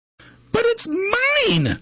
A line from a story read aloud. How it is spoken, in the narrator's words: screamed the bird when she heard the egg crack